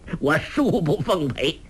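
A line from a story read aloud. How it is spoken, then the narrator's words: Laughing. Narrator (Chinese): 洪七公笑道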